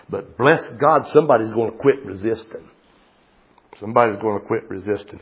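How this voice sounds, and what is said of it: West Virginia accent. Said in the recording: “that's my West Virginia dialect coming through”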